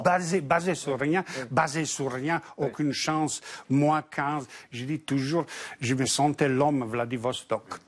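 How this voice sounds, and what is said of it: Foreign accent in French. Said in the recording (French): “avec ton accent”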